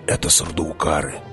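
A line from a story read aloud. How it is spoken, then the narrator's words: Whisper. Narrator (Russian): шепнул Хават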